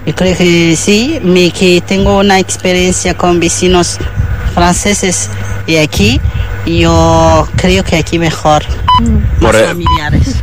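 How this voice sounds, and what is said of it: French accent. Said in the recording (Catalan): “Aquesta dona era francesa i per això tenia aquest accent”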